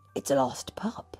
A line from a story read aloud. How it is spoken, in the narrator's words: he whispered to Perdita